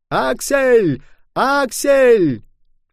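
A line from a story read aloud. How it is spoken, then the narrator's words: Shouting. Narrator (Russian): кричал он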